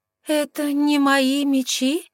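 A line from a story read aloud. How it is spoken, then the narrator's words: Shocked, strained. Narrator (Russian): потрясенно выдавила я, обманутая в лучших чувствах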